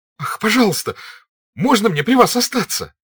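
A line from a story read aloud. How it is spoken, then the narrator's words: Crying out. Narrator (Russian): вскрикнул Петя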